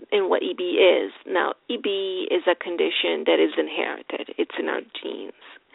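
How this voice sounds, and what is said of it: Speaks English with an accent. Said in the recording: “I have an accent”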